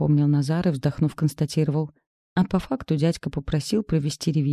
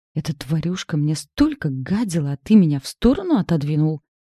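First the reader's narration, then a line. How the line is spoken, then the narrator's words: Hissing. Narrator (Russian): зашипела я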